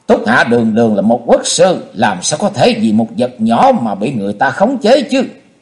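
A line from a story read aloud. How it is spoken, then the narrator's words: Loud laughing. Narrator (Vietnamese): Xung đại sư cất tiếng cười to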